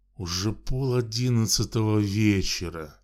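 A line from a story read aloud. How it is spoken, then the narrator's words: Displeased exclamation. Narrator (Russian): Недовольно воскликнул он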